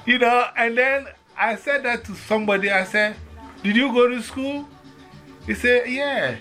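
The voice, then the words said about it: Ghanaian West African accent. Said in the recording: “they hear my accent, they say, where are you from? I say, I'm from Ghana, West Africa.”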